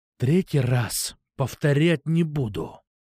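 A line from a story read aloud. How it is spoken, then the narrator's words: Restrained, through clenched teeth. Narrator (Russian): Еле сдерживаясь, процедил я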